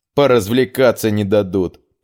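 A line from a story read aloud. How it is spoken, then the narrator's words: Grumbling mutter. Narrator (Russian): пробурчал Гер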